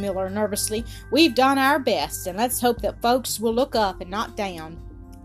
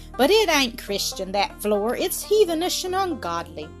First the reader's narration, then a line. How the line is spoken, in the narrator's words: exclaimed Maria Sharp